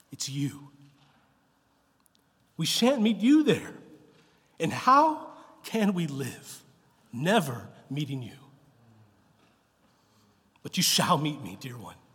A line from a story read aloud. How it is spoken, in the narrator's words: said Aslan